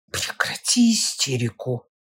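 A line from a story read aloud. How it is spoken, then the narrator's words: Hissing whisper. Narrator (Russian): говорит мой сын свистящим шепотом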